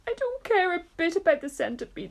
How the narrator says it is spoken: the earthworm sobbed

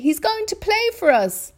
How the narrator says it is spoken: they cried

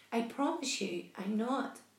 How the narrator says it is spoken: the spider answered

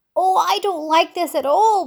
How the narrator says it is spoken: wailed the earthworm

